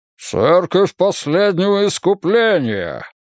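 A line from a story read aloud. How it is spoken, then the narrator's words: Deep bass bark. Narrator (Russian): низким басом рявкнул епископ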